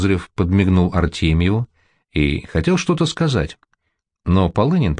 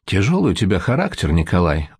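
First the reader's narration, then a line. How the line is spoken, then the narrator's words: Sighing. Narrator (Russian): вздохнул Козырев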